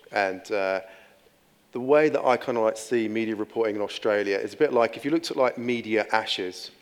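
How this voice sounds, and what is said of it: English accent. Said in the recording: “As you can tell by my accent, I'm English.”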